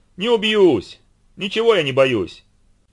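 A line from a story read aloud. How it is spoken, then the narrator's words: Shout. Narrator (Russian): Даня крикнул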